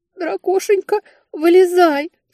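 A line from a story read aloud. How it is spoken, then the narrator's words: Sobbing. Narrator (Russian): всхлипнула я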